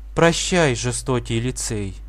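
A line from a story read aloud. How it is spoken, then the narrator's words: Sighing. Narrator (Russian): вздохнула Жюли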